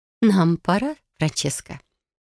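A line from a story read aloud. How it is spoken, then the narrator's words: Soft. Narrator (Russian): она мягко проговорила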